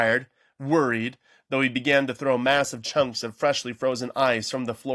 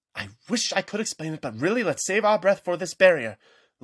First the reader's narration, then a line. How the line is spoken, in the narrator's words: Luella panted